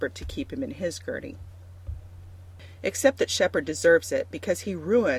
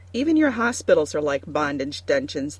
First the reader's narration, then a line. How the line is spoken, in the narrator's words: the runner snaps at him